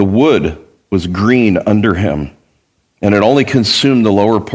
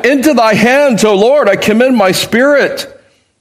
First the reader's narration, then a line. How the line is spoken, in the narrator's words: With a loud voice he cried